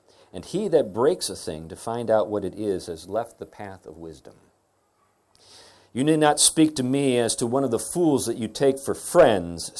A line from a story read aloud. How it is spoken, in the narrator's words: said